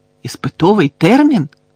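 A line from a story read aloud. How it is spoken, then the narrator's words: Very loud shout. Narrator (Ukrainian): так голосно вигукнув Рон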